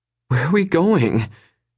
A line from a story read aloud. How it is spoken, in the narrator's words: She wails as she bounces on my shoulder